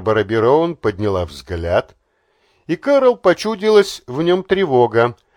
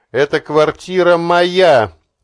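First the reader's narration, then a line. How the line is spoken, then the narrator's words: Overly loud. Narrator (Russian): излишне громко даже для собственных ушей сказала Кэрол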